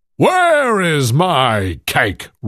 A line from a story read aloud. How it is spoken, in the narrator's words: roared the giant